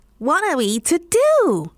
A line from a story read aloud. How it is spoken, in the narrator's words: cried the cat